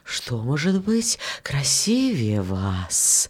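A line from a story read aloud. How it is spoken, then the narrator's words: Wind whispering. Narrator (Russian): ветер ... шептал розам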